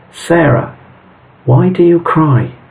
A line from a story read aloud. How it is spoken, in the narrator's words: calmly said